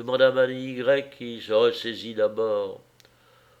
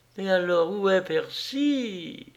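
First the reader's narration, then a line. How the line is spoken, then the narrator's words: Sobbing. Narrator (French): sanglota la pauvre petite Madame X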